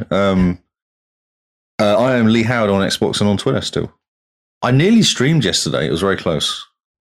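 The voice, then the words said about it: Deeper voice than usual. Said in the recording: “I'm a deep voice currently because of the code.”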